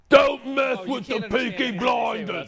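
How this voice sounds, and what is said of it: Peaky Blinders Birmingham accent. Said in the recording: “I could do a Peaky Blinders accent... That's what they sound like.”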